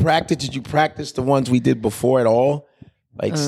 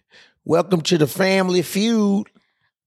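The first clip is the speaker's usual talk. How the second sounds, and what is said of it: Steve Harvey impression. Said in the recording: “This is Steve Harvey.”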